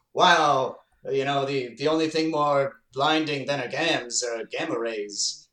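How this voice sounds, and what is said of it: Bad old-fashioned transatlantic accent impression. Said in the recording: “bad Gene Kelly impression ... It's period appropriate ... that transatlantic accent we all know and love”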